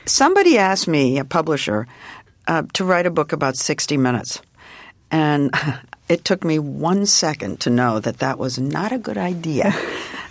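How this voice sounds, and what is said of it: Slightly hoarse voice. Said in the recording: “I'm a little hoarse. I've been talking too much.”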